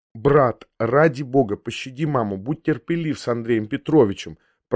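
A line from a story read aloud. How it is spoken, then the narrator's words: Whispering sister. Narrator (Russian): прошептала мне сестра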